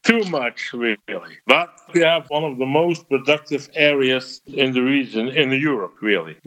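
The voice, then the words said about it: Belgian accent, fluent English. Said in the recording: “a farmer from eastern Belgium ... While he definitely has an accent, I'm pretty impressed with how good his English is.”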